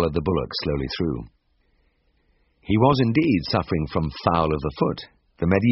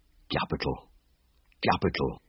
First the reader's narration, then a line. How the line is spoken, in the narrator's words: murmured